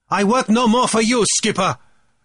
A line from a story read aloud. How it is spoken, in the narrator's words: Tai Hotauri said insolently and loudly